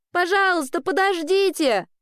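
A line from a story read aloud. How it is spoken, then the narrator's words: Shouting. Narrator (Russian): Нагоняя ее, кричала Элли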